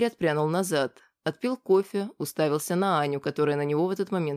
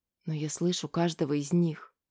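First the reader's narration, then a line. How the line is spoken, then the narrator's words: Whisper. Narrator (Russian): прошептала она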